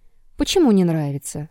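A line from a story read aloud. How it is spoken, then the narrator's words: Calm question. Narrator (Russian): спокойно спросила Елисавета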